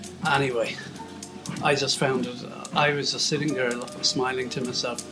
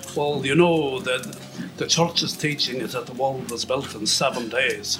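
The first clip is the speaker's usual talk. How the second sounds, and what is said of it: Put-on Scottish accent. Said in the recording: “Scottish gentleman ... Excuse the accent. Apologies to Scottish people and everybody.”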